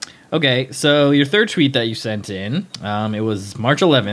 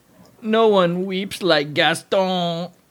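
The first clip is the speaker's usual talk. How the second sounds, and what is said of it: Gaston voice from Beauty and the Beast. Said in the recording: “I didn't do a good Gaston voice ... That was an excellent Gaston voice.”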